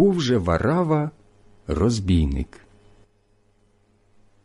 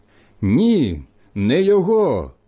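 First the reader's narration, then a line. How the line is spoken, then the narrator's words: Group shouting again. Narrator (Ukrainian): знову закричали ті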